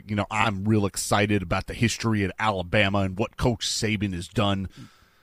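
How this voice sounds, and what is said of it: Impression of a football coach. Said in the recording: “That's a pretty good impression you got right there.”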